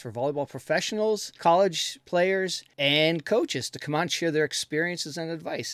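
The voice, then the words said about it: Smooth radio-style podcast voice. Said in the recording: “you have a wonderful podcast voice.”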